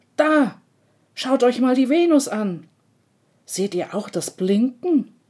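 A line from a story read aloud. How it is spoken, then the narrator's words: Calling out. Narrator (German): Er ruft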